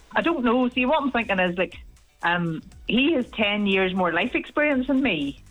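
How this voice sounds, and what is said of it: Slight Northern Irish Ballymena accent. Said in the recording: “Originally Ballymena, as you can probably tell from the accent... Hint of it there, just a wee flavour of it.”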